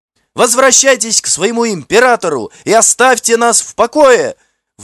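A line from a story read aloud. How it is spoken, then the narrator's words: Shouted by a young woman. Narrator (Russian): выкрикнула красивая девушка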